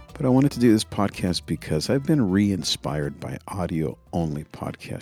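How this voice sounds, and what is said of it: Soft whispered speech. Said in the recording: “I'm kind of whispering to not wake up the family.”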